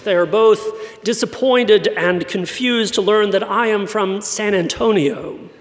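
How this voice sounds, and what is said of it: British-sounding accent. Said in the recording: “I sounded like I was from England. People still ask me about my British accent.”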